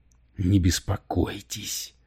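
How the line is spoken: Growled. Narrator (Russian): прорычал Камерон

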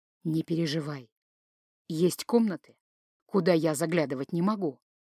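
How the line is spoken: Whisper. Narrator (Russian): шепнул Мальгрим

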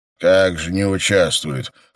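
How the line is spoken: Snorting. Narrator (Russian): хмыкнул собеседник

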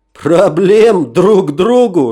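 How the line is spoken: Big man laughing. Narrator (Russian): рассмеялся бугай

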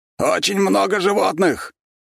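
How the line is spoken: Loud, shouting over the wind. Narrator (Russian): громко, перекрикивая ревущий вокруг ветер, ответил Битюжин

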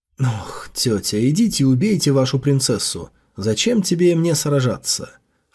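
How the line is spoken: Inner sigh. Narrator (Russian): вздохнул в сердце

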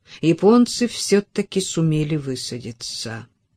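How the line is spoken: Gloomy, head doctor. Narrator (Russian): мрачно сказал главный врач

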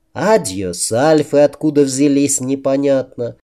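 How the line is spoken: Plain. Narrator (Russian): спросила сестру Априя

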